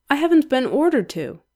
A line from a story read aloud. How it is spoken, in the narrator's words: Aziraphale says, and sighs